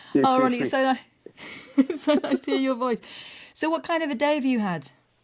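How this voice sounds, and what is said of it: Deliberately poor Southampton accent. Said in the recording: “the Southern accent, that really is. Is that the Southampton accent? ... Pretty much, yeah. I try and keep it. ... I make it as rubbish as possible ... That's what I'm aiming for with my accent.”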